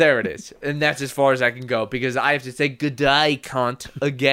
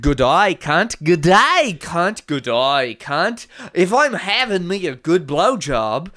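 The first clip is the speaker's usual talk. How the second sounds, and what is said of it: Put-on Australian accent. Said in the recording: “I will say it like an Australian ... the Australian accent”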